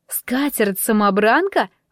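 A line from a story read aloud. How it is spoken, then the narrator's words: Muffled exclamation. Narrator (Russian): воскликнула, прикрыв рот рукой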